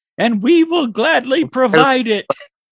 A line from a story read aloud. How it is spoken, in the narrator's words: Doug's babies shout